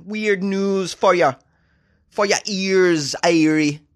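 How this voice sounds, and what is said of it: Weak put-on Jamaican accent. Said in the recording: “How's that for a Jamaican accent? I don't know, it's not so great.”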